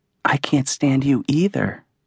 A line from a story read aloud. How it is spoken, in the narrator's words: whispered in his ear